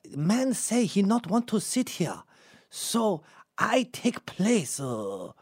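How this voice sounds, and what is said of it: Poorly done put-on Japanese accent. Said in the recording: “I suck at accents today... it's affecting my accents... that's Japanese, but whatever”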